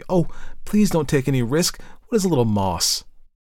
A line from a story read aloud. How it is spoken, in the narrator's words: Elsie exclaimed eagerly